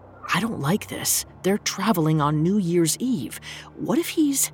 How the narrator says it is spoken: whispered

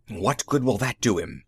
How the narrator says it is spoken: Magnan whispered, looking nervous

